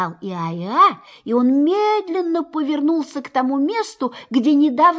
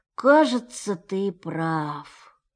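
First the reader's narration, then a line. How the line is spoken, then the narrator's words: Sad deep sighing. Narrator (Russian): сказал, глубоко и печально вздыхая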